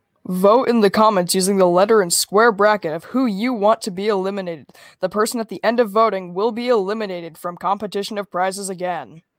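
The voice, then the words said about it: Polished announcer-style voice. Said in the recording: “Listen to that voice. ... He's got that good announcer voice.”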